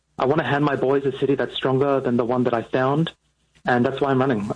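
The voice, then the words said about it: Australian accent. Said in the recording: “yes, I have a funny accent, and I moved here from Australia”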